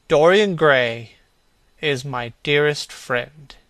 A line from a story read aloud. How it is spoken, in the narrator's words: he said